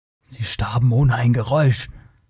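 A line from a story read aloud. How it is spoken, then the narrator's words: Murmured, low. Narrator (German): murmelte der Cimmerier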